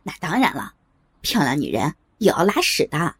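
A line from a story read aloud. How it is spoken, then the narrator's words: Laughing. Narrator (Chinese): 也笑了起来，说道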